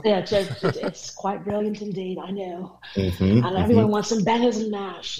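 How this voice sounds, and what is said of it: Put-on English accent. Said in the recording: “you can obviously all tell I was born in England. By my voice.”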